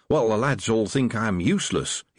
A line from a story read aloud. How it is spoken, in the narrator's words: he said cheerfully